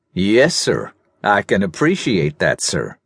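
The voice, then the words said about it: Soft American southern drawl. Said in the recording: “spoke in a soft southern drawl, the accent so unexpectedly American”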